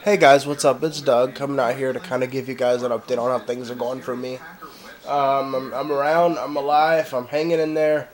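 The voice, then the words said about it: Sick, congested-sounding voice. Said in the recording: “as you guys can tell in the sound of my voice, I've got a cold and I probably sound horrible ... this is what I sound like with a nasty cold”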